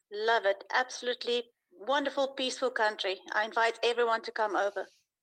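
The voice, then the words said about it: South African accent. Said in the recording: “You have an accent. ... I'm from South Africa”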